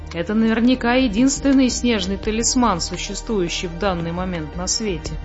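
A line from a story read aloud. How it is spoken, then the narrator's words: Plain. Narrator (Russian): сказал муми-тролль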